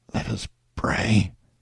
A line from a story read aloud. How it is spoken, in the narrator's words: For a day or two past, the men had lost their voices, but now Captain Rounceville whispered